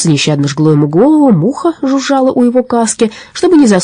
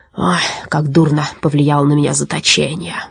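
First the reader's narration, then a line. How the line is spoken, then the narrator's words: Grumbling. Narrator (Russian): ворчал он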